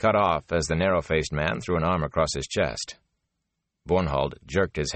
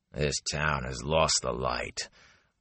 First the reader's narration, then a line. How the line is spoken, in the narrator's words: growled the man